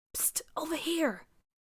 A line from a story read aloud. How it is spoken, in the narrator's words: JR whispered